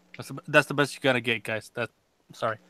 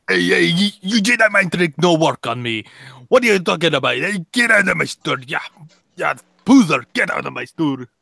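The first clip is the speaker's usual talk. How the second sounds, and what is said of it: Gruff deep New York Italian accent. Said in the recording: “you got to go deep, hardcore, gruff, deep voice, just like... New York, New Jersey accent ... Or New York and Italian accent on that”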